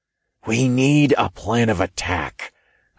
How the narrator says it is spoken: I whispered

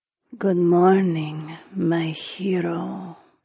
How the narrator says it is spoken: she mumbled sleepily

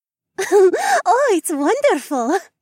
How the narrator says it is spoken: Rebecca giggled

